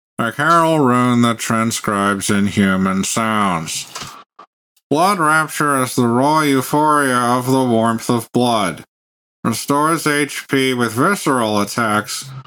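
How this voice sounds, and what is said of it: Flat, boring monotone reading voice. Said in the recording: “can it just be like the most boring voice imaginable?”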